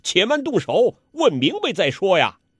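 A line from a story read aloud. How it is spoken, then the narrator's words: Calling out to stop. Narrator (Chinese): 彭连虎拦叫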